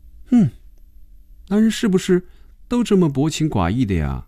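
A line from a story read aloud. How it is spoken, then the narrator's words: Soft sigh. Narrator (Chinese): 菲比轻轻的叹了口气说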